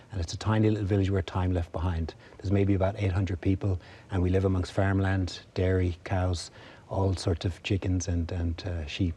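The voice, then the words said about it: Irish accent. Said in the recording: “You're Irish. We can tell that by your accent.”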